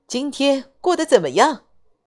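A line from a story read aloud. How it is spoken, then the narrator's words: Smiling. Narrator (Chinese): 他笑着说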